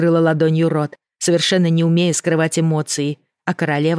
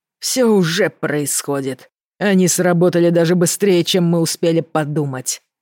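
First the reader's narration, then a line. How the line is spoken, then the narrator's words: Growled. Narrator (Russian): прорычал король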